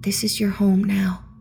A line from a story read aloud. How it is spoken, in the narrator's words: she said softly